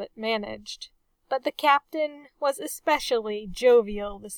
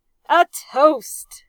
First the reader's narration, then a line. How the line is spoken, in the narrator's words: the captain roared